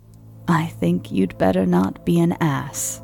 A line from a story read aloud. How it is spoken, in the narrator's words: I said